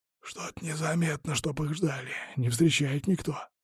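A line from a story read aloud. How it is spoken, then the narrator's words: Whisper. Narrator (Russian): прошептал Василий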